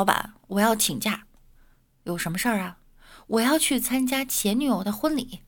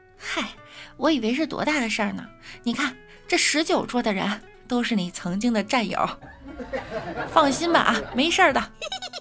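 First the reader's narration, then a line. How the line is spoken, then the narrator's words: Smiling, reassuring. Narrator (Chinese): 新娘笑了笑，说道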